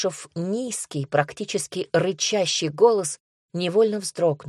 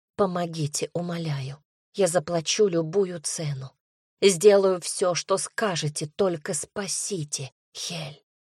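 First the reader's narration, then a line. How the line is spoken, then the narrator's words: Hasty whisper. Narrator (Russian): Прошептала быстрее, чем подумала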